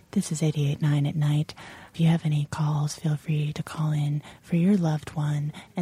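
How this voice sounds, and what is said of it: Smooth late-night radio DJ voice. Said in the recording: “develop a very smooth delivery voice ... I used to host a late night R&B show”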